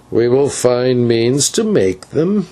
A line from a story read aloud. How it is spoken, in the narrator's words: answered the old man with a hideous chuckle